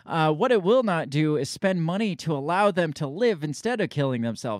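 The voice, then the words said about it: British accent. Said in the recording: “I can't get rid of my British accent to switch to Canadian now.”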